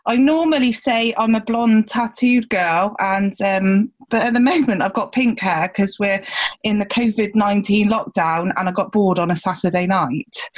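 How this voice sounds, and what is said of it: Gloucestershire English accent. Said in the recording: “I'm from down in Gloucestershire. You might hear that in my accent.”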